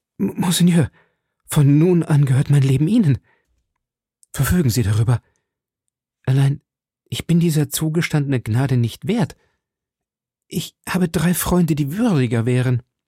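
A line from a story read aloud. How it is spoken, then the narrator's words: Stammering. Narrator (German): D'Artagnan stammelte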